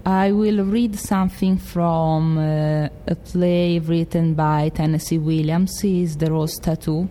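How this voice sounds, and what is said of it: Strong Italian accent in English. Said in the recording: “my accent is different because I'm from the center and from a big city ... In English, of course, it's a big Italian accent.”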